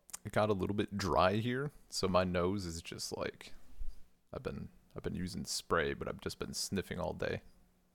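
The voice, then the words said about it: Stuffy, nasal voice. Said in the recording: “extra stuffy today or like nasally”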